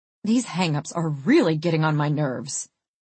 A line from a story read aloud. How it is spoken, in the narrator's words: She grumbled